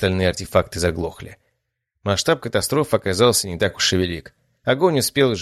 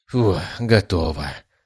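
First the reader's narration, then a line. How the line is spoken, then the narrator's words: Relieved sigh. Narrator (Russian): с облегчением вздохнул я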